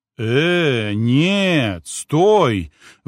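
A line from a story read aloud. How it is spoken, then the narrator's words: Sudden roar. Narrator (Russian): внезапно взревел Алекс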